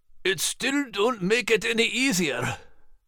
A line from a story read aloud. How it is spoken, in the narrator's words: Max moaned